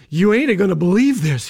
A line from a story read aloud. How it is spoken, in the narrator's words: panted